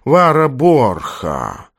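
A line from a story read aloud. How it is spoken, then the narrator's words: Slow repetition. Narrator (Russian): повторил он медленно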